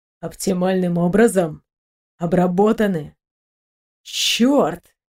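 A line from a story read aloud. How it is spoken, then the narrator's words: Captain muttering. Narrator (Russian): пробормотал капитан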